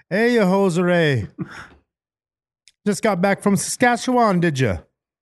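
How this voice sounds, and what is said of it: Attempted Canadian accent, sounds Jamaican. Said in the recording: “It's kind of more Jamaican. ... Kind of British ... my Canadian accent”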